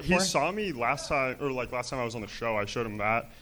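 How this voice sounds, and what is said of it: Deep voice. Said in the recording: “My voice is too deep for that.”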